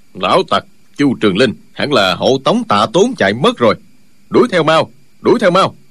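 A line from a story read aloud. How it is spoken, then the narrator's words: Deep gruff voice. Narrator (Vietnamese): một giọng ồm ồm nói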